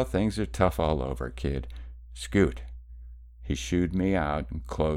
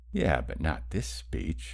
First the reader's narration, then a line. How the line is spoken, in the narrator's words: I mumbled